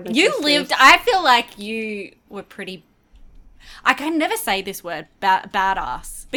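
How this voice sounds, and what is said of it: Australian accent. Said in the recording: “it doesn't match my accent ... what's the Aussie term for badass? ... we say ass, not ass. And so it always just come out like we're trying to be posh”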